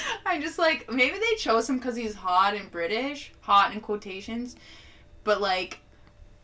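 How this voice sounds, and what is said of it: Usual voice. Nothing is said of it.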